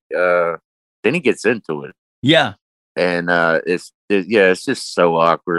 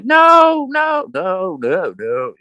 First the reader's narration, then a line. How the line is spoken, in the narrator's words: screaming